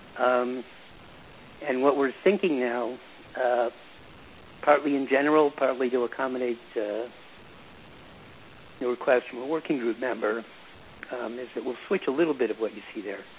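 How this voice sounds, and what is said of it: Rough, allergy-affected voice. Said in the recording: “my voice is still not good... the Michigan allergies”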